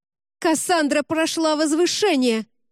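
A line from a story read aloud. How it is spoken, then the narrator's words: Unrestrained outburst. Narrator (Russian): не сдержавшись, выкрикнула Аманда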